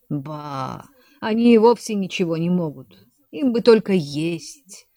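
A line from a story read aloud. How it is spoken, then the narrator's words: Muttered. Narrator (Russian): пробормотал Легранж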